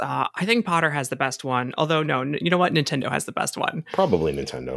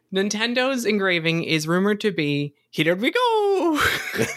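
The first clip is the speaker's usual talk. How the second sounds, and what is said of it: Mario character voice impression. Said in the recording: “my best impression of Mario ... It's great. It's perfect.”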